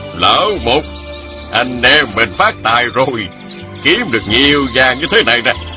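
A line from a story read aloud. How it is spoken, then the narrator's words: Old man smiling. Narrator (Vietnamese): Lão mỉm cười nói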